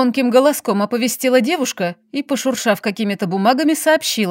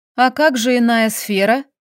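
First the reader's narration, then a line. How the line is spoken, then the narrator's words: Clarifying question. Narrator (Russian): уточнила я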